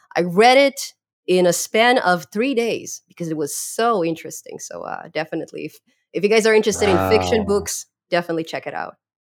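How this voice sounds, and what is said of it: Non-native English accent. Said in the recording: “my accent doesn't allow me to really say the right words”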